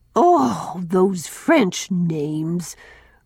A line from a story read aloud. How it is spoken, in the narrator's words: groaned